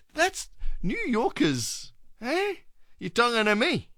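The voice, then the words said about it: Bad put-on New York accent. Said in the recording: “It's my worst New York accent.”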